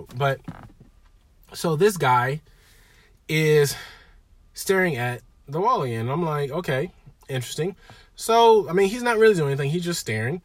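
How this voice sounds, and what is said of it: Scratchy voice. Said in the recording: “I'm still getting over a little cold. I feel better, but my voice is a little scratchy”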